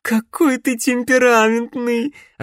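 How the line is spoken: Loud laughter, young woman. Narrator (Russian): расхохоталась юная ведьма

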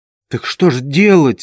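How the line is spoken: Timid question. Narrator (Russian): спросил он на этот раз уже робко

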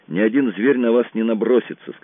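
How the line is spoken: Calm. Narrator (Russian): сказал я спокойно

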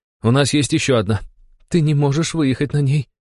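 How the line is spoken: Young woman's trembling voice. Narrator (Russian): дрогнувшим голосом проговорила девушка

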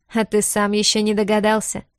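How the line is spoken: Mocking question. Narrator (Russian): переспросил Высший, продолжая насмешливо улыбаться

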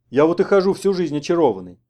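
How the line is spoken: Grumbling. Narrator (Russian): проворчал Куров

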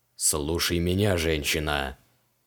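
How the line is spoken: Growled. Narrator (Russian): рыкнул он

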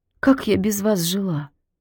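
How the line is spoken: Barely audible. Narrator (Russian): чуть слышно проговорила Зина

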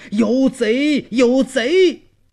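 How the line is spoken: Shouting alarm. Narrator (Chinese): 边喊边跑出门外

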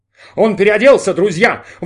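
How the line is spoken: Excited shouting. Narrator (Russian): восторженно кричал Майк Терри

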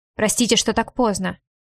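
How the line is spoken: Curt, barking. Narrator (Russian): также отрывисто, будто лающе

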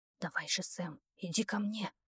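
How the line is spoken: Whisper. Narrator (Russian): прошептал Эрик

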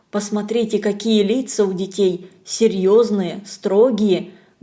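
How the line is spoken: Low undertone. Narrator (Russian): говорит вполголоса полковник

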